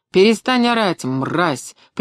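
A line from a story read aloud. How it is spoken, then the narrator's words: Sharp shout. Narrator (Russian): прикрикнул он на стонавшего человека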